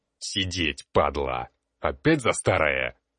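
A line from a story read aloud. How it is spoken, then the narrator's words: Barked. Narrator (Russian): рявкнул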